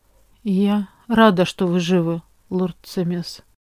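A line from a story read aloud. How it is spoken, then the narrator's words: Quiet. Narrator (Russian): тихо говорит госпожа Ситаби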